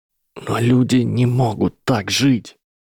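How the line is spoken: Boy whispering, empty room. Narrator (Russian): прошептал мальчик в пустом классе

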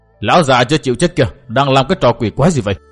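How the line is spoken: Hurried sharp demand. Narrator (Vietnamese): Ấm Bà vội tiến lên quát hỏi

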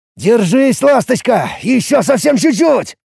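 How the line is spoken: Droning through grinding teeth. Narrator (Russian): Скрипя зубами, прогудел уже я

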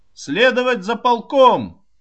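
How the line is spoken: Shouted from afar. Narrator (Russian): крикнул он еще издали

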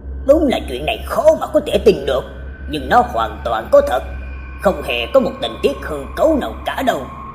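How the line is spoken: Speaking while drawing on cigarette. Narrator (Vietnamese): rít một hơi nói

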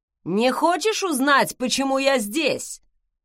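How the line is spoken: Loud question. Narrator (Russian): Вслед громко спросил Веллар

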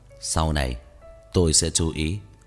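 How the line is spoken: Calm. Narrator (Vietnamese): Ngụy Tông Thao bình tĩnh … nói

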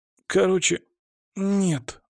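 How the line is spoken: Grumble. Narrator (Russian): буркнул он

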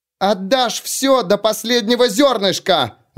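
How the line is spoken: Pitiful wailing shout. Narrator (Russian): Завопила она в спину поспешно удаляющемуся фермеру, что прозвучало еще более жалко, чем прежде

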